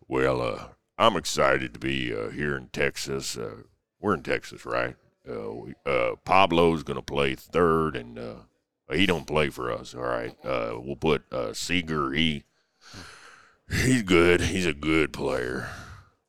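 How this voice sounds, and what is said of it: Imitates another person's voice. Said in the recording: “my Bochy impression ... that's about as good as I've heard”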